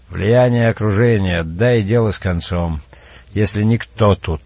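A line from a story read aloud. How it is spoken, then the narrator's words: Gently coaxing. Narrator (Russian): ласково подзывая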